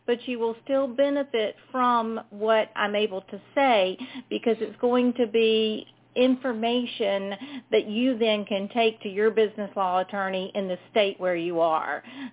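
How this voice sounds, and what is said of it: Southern US accent. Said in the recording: “if y'all couldn't tell from my accent, I'm from South Carolina.”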